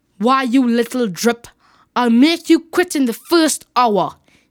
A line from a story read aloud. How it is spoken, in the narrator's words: said angrily